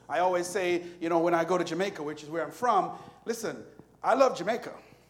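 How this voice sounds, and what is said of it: Speaks with a Jamaican accent. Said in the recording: “I ain't care if my accent is different.”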